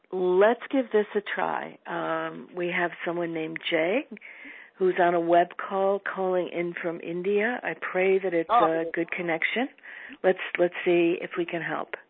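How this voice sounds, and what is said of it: Strained, failing voice. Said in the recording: “My voice has been going a little bit during the call today, and it's got a lot to do with heavy, heavy pollen in my area ... forgive the voice”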